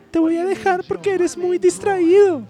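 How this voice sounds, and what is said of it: Man putting on a female voice. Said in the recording (Spanish): “voy a hacer voz femenina”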